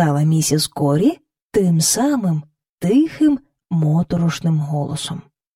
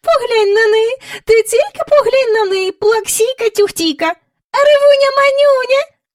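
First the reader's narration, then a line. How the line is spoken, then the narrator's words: Squeaky voice. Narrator (Ukrainian): пищала вона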